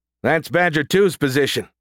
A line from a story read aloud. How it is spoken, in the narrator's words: shouted Stewart